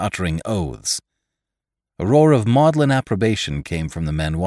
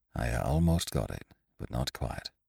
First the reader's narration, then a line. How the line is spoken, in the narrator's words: he said in a low voice